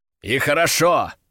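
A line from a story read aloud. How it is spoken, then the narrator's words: Growled. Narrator (Russian): рыкнул я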